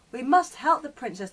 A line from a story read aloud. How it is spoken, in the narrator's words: the dwarves cried